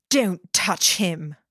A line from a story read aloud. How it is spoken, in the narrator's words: snarling